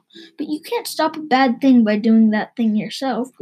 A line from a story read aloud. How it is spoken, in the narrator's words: groaned Mom